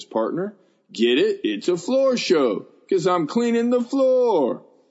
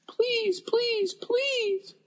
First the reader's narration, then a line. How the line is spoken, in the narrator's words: I squeaked